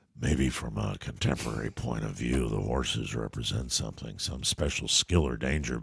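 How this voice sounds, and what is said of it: Harrison Ford impression. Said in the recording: “my Harrison Ford impression”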